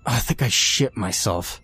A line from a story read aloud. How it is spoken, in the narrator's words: Kenny grunted